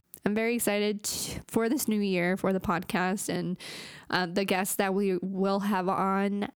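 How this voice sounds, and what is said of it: Hoarse, fading voice. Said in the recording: “my voice is kind of going out because I'm still recovering from being sick”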